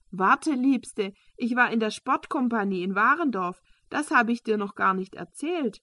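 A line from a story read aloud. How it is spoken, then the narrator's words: Calling after someone. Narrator (German): rief Fischer hinterher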